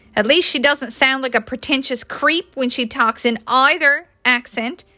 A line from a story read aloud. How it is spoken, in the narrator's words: Natalie snapped